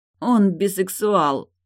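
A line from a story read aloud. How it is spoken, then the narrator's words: Moaning. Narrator (Russian): простонала Тильда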